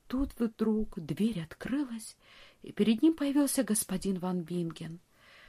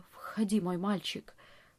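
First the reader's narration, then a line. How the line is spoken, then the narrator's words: Forced, strained words. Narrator (Russian): Франц смог выдавить из себя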